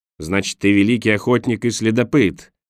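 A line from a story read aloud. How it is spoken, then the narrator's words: Growled. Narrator (Russian): прорычал Борис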